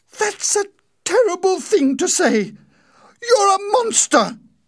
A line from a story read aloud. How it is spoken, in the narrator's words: Winnie cried